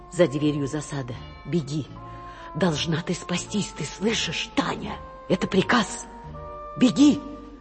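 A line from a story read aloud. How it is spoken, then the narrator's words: Soundless mouthed whisper. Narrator (Russian): прошептал одними губами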